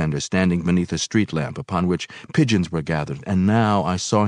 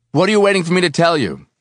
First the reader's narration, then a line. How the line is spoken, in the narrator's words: I shouted suddenly, my voice strangely crisp on the windless air